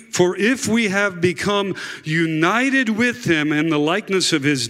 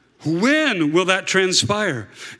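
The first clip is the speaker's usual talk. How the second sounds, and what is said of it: Put-on Southern US accent. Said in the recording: “See if I can give you a southern accent”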